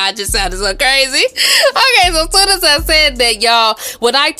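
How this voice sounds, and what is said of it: Usual voice. Nothing is said of it.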